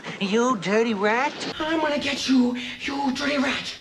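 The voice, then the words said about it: James Cagney impression. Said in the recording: “made famous by James Cagney ... his impersonator sure did”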